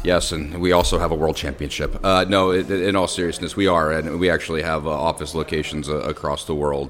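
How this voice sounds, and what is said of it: American accent. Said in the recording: “We can hear your accent. You know, very much a, U- a US headquartered organisation.”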